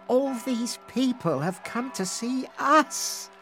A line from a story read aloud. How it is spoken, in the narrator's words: she sighed